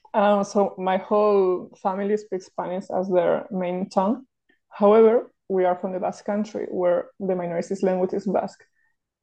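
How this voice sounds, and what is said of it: Spanish accent in English. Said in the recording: “my home language is Spanish, as you can probably tell in my accent.”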